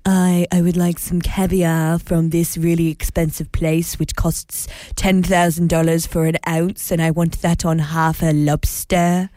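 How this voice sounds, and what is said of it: Fancy, snobby French-ish accent. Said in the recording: “I enjoyed that accent. ... It was a little bit of fancy, a little bit of French, a little bit of snobby.”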